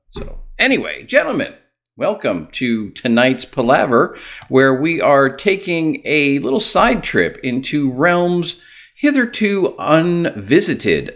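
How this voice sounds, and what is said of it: Rock and roll radio DJ voice. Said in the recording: “like the rock and roll DJ ... I've got my rock and roll DJ voice going tonight”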